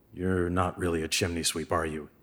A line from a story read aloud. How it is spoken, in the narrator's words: Henry said quietly